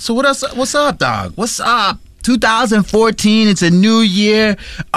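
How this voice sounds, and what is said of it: Usual voice. Nothing is said of it.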